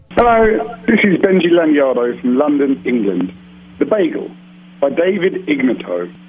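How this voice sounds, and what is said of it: English accent from London. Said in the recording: “a food poem in an English accent ... Tonight's poem comes from London, England”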